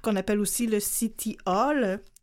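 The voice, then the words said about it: French-accented English pronunciation. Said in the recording (French): “J'ai pris un petit accent d'anglais très franco.”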